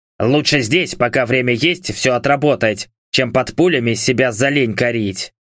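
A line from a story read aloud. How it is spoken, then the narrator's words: Grumbling. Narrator (Russian): бурчал он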